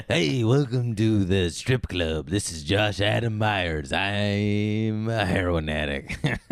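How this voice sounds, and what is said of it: Impression of Josh Adam Myers. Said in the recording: “you do an impersonation of me. I'll do an impersonation of you.”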